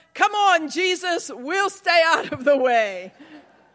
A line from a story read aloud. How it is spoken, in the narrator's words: The little girl closest to the aisle shouted